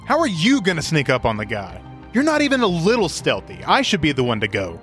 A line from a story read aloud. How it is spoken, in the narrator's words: Vesrin scoffs and says